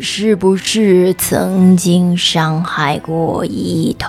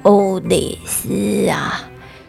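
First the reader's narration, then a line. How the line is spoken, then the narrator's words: Low voice. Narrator (Chinese): 他低声地说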